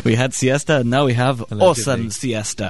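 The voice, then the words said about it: Put-on Spanish accent. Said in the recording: “This is a Spanish accent, by the way.”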